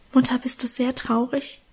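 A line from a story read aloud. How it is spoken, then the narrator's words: Whispered. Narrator (German): flüsterte ich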